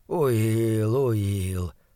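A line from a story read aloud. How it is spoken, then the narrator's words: Muttering. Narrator (Russian): бормотал он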